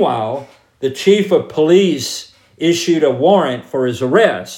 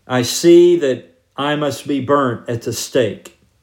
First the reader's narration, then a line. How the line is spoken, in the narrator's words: calmly told